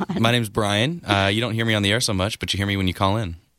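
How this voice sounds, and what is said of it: Smooth, sexy radio voice. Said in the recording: “He's got a really sexy, doesn't he have a little sexy radio voice right there?”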